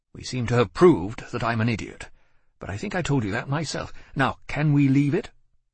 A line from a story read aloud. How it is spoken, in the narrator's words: He spoke sharply